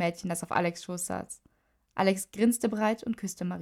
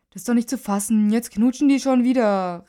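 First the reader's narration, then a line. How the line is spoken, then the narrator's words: Called out. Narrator (German): rief Max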